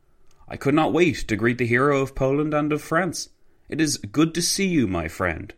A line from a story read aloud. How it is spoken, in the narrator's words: Piłsudski exclaimed